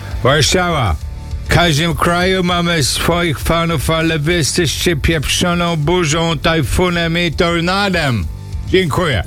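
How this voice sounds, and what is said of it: Shouted Polish with put-on foreign accent. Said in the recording (Polish): “czy ja mam krzyczeć z akcentem ... jakby Donald Trump szedł na scenę w stodole”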